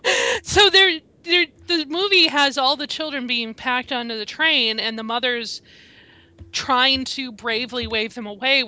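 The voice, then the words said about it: Choked up, emotional voice. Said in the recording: “I'm getting choked up just thinking about it.”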